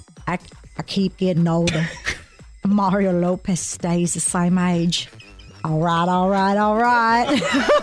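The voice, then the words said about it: Imitates another person's voice. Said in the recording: “In my Matthew McConaughey voice ... I think this is going to call for you to do an impression.”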